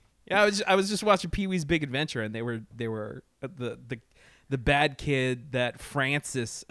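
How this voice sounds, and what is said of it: Usual voice. Nothing is said of it.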